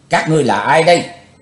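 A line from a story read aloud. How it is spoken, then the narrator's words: Shouted question. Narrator (Vietnamese): Chàng quát hỏi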